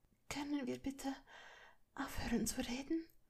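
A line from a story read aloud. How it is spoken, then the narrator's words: Breathless voice. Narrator (German): sagte atemlos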